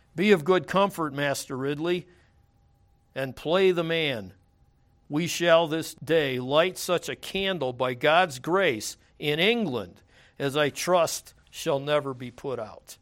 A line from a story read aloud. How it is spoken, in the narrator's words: Latimer cried out his famous words to his friend